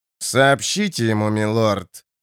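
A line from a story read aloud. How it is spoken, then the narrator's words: Through gritted teeth. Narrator (Russian): цедит сквозь зубы Айден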